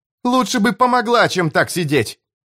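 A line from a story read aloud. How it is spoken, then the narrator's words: Snapped. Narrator (Russian): огрызнулся Том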